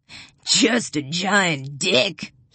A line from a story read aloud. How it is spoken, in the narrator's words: cackles